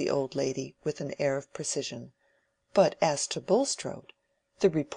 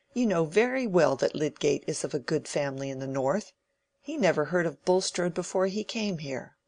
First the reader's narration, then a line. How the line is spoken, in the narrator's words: Fairbrother, after an explosive laugh